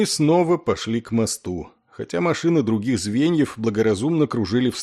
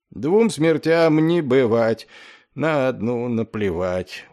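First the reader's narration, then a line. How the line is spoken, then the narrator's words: Dejected singing. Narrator (Russian): уныло пропел Маквот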